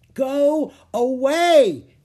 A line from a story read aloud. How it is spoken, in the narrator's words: Annie shouted